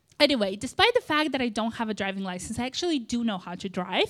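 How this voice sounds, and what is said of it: Moldovan accent. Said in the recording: “if you're not sure what that accent is from, it's from Moldova”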